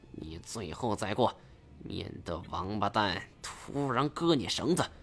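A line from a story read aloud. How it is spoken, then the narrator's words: Quiet voice. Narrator (Chinese): 他小声说道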